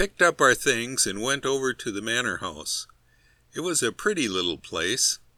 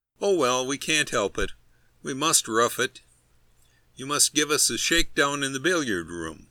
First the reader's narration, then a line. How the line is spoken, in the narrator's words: Harris, who is an old traveler, laughing cheerily, said